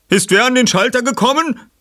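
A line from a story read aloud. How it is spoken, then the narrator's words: Someone calling out. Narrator (German): rief jemand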